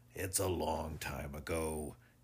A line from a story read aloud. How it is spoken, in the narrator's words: said rather weakly